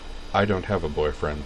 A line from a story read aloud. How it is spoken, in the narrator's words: Dorothy said flatly